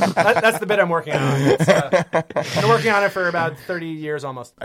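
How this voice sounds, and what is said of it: Usual voice. Nothing is said of it.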